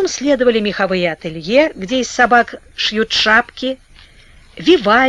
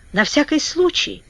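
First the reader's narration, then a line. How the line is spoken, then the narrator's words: Barely audible addition. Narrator (Russian): добавила Вера чуть слышно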